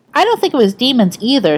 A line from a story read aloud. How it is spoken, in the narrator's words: Sam said